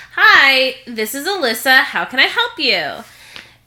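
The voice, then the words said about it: Polite customer service voice. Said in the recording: “in my most convincing customer service voice”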